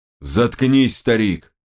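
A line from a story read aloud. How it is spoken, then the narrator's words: Growling. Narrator (Russian): прорычал Чингис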